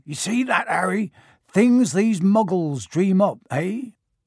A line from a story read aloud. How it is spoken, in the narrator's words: saying loudly